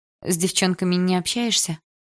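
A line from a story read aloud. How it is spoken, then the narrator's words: Sighing. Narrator (Russian): вздохнула я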